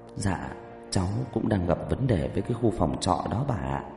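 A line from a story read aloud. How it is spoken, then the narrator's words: Muttering. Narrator (Vietnamese): lẩm bẩm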